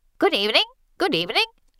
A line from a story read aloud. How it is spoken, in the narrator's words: Cassandra chirps